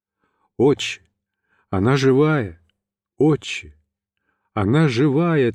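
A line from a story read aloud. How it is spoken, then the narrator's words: Repeating through choking tears. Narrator (Russian): твердил ... сквозь слезы, душившие меня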